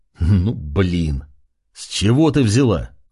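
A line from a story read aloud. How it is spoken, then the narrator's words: Rough-voiced question. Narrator (Russian): спросил грубым голосом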